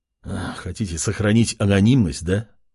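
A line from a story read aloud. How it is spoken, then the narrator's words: Sigh. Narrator (Russian): Вздохнул тот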